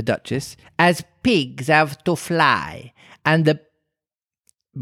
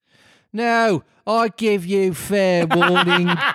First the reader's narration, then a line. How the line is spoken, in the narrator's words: shouted the Queen